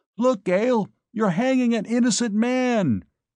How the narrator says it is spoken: I yelled back at her

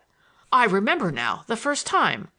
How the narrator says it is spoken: I exclaimed, more angry than I had ever been before in my life

